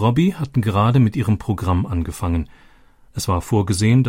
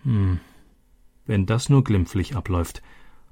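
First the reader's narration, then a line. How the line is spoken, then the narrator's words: Muttered. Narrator (German): murmelte Elena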